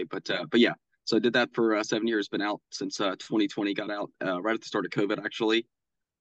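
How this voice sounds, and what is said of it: Voice affected by a cold. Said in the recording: “fighting off a little bit of a cold right now. So I hope my voice sounds okay.”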